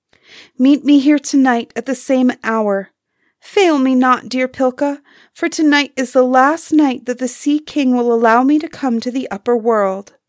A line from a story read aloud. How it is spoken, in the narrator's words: as she sank in the waves to the chime of silver bells, called out